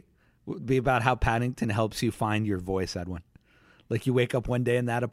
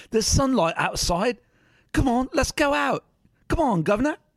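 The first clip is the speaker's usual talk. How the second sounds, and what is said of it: Cockney accent character voice. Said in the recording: “Oh, he doesn't have a Cockney accent?”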